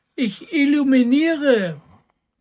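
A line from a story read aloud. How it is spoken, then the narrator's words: Little cat calling down. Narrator (German): rief die kleine Katze herunter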